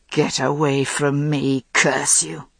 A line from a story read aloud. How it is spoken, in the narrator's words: he said in a terrible voice